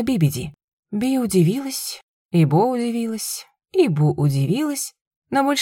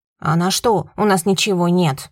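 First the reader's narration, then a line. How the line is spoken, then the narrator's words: Barking. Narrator (Russian): рявкнула Би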